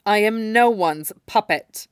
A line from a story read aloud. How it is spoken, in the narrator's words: Yagura answers icily